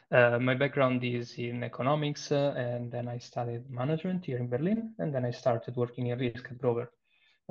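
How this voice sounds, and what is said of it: Italian accent. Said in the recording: “I am Italian, as you may infer from my accent.”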